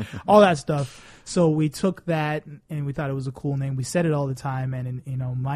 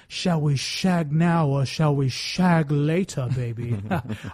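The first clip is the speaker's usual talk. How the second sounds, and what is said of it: Austin Powers impression. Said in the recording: “talking like Austin Powers ... the accent and all the crazy words”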